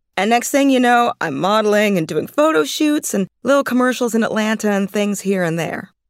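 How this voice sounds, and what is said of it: Traces of an Atlanta accent. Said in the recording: “She was raised in Atlanta, and you can still hear traces of the accent.”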